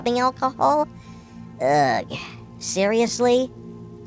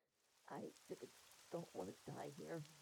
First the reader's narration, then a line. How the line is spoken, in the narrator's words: the cocktail waitress whispers